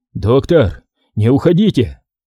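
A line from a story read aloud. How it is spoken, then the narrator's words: Serious, hoarse call, sick man. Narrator (Russian): Серьезным и каким-то хриплым голосом вдруг окликнул его больной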